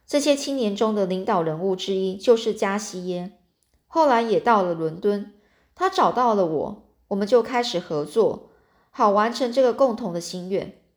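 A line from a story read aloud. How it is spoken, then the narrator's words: Sighing. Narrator (Chinese): 杜兰德夫人叹了一口气，又继续说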